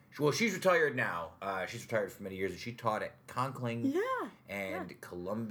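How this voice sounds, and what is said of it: Usual voice. Nothing is said of it.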